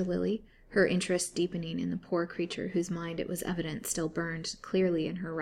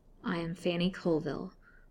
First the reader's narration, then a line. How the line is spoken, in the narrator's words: the answer in a low and bitter tone